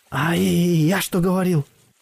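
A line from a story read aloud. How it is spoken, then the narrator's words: Fear-trembling soldier's shout. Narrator (Russian): дрожащим от страха голосом выкрикнул безымянный солдат Союза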